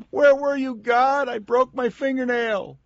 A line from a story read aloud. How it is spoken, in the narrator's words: We will scream